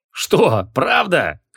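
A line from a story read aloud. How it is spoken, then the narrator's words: Skeptical snort. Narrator (Russian): хмыкнул Двурукий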